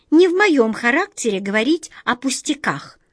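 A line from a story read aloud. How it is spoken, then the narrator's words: Irritated squeak, mouse. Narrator (Russian): с раздражением пропищала мышка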